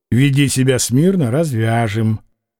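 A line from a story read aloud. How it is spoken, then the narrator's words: Plain. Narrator (Russian): сказал кто-то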